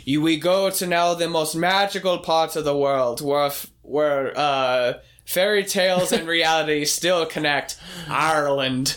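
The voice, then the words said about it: Put-on Irish accent. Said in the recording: “you are doing an Irish accent, except you're doing it better than what they did.”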